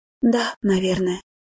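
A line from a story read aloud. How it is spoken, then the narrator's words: Sighing. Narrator (Russian): Элен вздохнула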